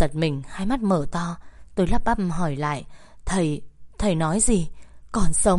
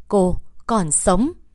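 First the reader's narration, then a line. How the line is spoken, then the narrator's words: Loud. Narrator (Vietnamese): Thầy lớn tiếng nói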